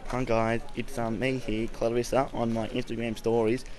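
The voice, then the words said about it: Man putting on a girl's voice. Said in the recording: “I don't have a very girly accent, so you'll see when I play the clip”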